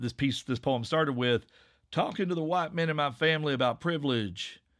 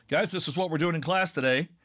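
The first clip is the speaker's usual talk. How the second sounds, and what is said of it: Neutral classroom teacher voice. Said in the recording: “my neutral Asheville teaching voice”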